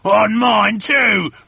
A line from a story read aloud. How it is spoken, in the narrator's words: shouted Mr